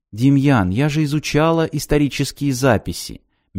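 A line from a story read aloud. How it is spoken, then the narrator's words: Soft. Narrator (Russian): мягко сказала Вероника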